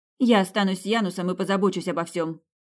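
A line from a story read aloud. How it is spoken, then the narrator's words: Quick, decisive. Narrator (Russian): быстро решила Тина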